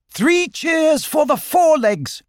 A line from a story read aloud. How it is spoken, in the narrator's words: cried